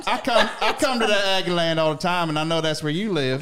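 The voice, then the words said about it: A well-done put-on accent. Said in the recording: “your accent's great ... I'm going to stop doing the accent”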